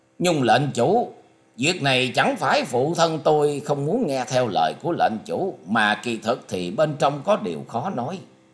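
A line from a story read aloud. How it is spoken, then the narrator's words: Laughing loudly. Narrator (Vietnamese): cất tiếng cười to nói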